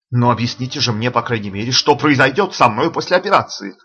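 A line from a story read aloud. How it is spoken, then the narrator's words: Irritated exclamation. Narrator (Russian): раздраженно воскликнул слепой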